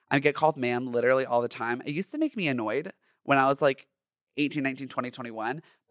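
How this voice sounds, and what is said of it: High, feminine-sounding speaking voice. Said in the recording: “I had a very high voice. I still have a feminine voice.”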